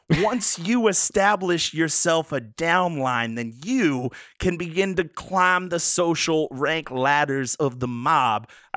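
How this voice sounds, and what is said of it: Weak put-on New York accent. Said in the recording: “I kind of lost the accent there. I don't do New York very well.”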